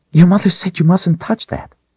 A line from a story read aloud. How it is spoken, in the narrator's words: Rachel blurted out before she had a chance to think